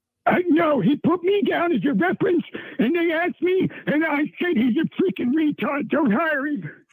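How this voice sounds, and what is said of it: Convincing impression of Gary. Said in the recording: “Not a bad Gary... Not at all. Very good. For a split second, I thought it was really him... a very fantastic impersonation of Gary”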